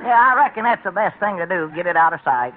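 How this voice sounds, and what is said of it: Peculiar English accent. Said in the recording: “your man has a rather peculiar accent ... Yes, it is peculiar ... What part of England is he from?”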